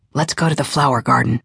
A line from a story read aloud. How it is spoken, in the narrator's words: Jason had whispered earlier